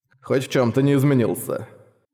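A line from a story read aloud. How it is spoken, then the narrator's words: Inward chuckle. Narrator (Russian): хохотнул про себя Грегор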